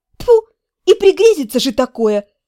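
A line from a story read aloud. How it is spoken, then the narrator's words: Indignant snort. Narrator (Russian): Возмущенно фыркнув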